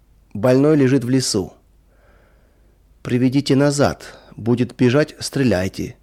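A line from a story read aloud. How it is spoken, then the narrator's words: Cold command. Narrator (Russian): холодно скомандовал кто-то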